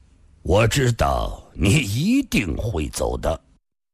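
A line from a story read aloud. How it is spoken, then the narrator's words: Calm indifferent old man. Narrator (Chinese): 老人淡淡的说道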